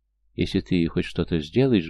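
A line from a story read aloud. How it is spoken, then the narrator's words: Heated whisper, breaking off. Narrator (Russian): горячо зашептала Олеся, но тут же осеклась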